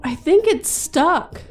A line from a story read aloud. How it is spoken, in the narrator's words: I called out to my friends in the other room